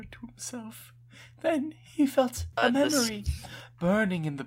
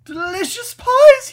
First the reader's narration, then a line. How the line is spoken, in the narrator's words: he screeched